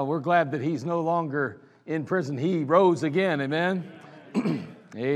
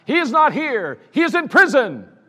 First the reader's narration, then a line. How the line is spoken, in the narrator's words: he then confidently grabbed the microphone and he triumphantly shouted